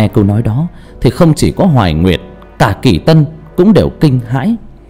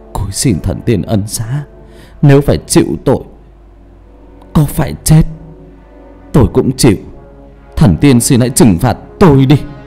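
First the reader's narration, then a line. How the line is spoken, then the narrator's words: Weak feeble voice. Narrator (Vietnamese): Hà vẫn nói bằng giọng yếu ớt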